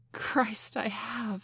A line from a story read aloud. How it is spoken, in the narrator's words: I gasped